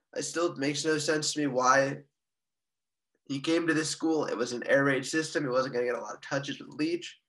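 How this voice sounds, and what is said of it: Strained, failing voice. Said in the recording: “My voice is going out.”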